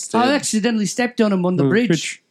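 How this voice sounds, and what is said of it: Poor put-on New Zealand accent. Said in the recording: “Pardon my horrible New Zealand accent.”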